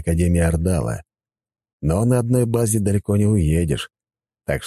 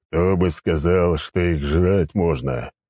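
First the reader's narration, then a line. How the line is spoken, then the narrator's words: Sighing. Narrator (Russian): в очередной раз вздохнул Сигизмунд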